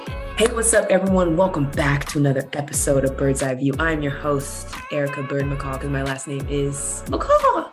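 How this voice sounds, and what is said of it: Slightly lost, strained voice. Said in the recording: “I went to Universal Studios and was screaming my butt off on the rides. And so my voice is a little gone. The macaw is a little shaken up”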